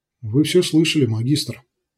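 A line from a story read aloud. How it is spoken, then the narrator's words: Quiet. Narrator (Russian): негромко произнес один из них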